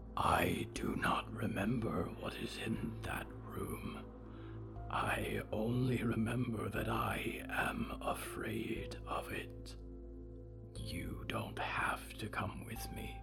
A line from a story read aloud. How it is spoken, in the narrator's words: Diggory whispered